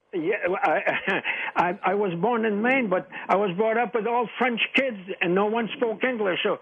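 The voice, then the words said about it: French-Canadian accent. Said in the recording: “are you French-Canadian? ... you sound like my grandfather. ... I knew that was the same kind of accent.”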